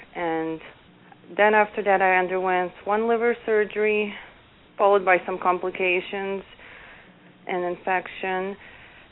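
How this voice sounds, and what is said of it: Bosnian Eastern European accent. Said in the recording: “you have the most lovely accent. ... I'm originally from Bosnia, Eastern ... Europe.”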